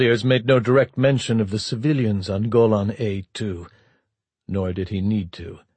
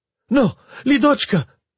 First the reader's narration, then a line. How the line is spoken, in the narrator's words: Ludmila Igorevna Borisovna strained and cried out to her daughter